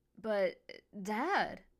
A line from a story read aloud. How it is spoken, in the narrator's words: Emma exclaimed